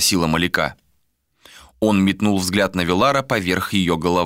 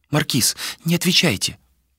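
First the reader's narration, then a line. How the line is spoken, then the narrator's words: Whisper. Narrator (Russian): прошептала Маляка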